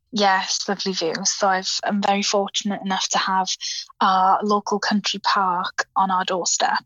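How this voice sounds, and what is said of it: South Welsh accent. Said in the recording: “I noticed a lovely accent there. ... So I'm in South Wales.”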